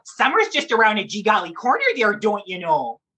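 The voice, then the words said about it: Playful Minnesota accent character voice. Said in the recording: “his mother was from, you know, from Minnesota probably. And I always found her accent to be so heartwarming and so charming and so lovely. And I thought, you know what? That's the voice ... funny voice”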